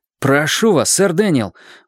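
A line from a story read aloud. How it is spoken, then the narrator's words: Exclaimed. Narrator (Russian): воскликнул он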